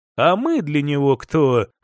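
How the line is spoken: Snorting scoff. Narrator (Russian): хмыкнул

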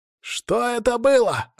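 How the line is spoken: Crowd yelling. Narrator (Russian): орали Решалвы

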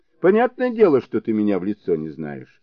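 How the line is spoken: Calm explaining. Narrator (Russian): спокойно стал объяснять Сунь-Кун

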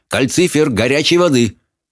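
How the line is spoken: Shouted while moving. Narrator (Russian): Хоул крикнув на ходу

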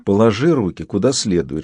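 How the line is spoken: Whisper. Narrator (Russian): шепнула Яна

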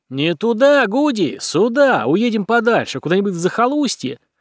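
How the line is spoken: Frantic yelling. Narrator (Russian): вопил

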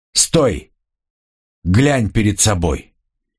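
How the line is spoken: Loud, commanding father. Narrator (Russian): отец громко остановил его, сказав

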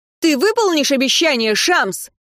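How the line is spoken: Shout, needle. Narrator (Russian): крикнула игла

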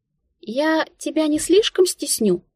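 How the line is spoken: Uncertain question. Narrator (Russian): неуверенно поинтересовалась Тинка

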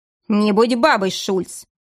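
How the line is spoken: Sharp shout. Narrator (Russian): прикрикнул на него офицер

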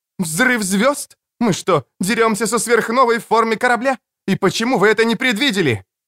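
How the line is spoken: Shouting until throat hoarse. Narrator (Russian): Она кричала так, что запершила в горле

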